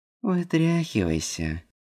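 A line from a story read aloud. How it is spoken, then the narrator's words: Nasal command, nose pinched. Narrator (Russian): Гнусавым голосом скомандовала Лола, зажав нос пальцами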